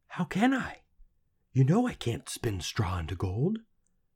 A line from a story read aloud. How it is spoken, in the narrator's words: she whispered back